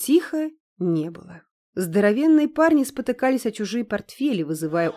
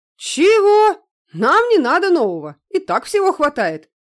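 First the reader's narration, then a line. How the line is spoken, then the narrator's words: Shouted out. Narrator (Russian): выкрикнул Максим с места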